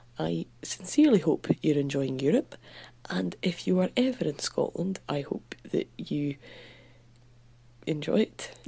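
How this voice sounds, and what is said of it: Coarse Scottish accent. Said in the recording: “my accent was delicious ... mine's quite coarse, but that's because I grew up in the rough end of Scotland”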